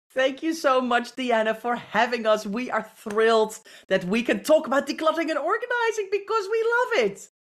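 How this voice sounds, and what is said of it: British accent. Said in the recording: “I am a sucker for that British accent.”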